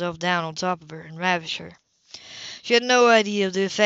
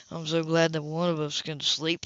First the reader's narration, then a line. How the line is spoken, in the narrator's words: he murmured with icy sarcasm